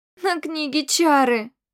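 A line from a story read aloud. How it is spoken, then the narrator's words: Whimpering. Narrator (Russian): захныкала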